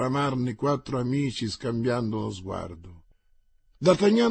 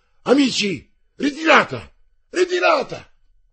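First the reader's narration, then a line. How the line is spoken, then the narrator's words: Shout. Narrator (Italian): gridò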